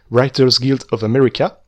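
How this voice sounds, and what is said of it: English accent on a name. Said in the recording (French): “attention, accent anglais”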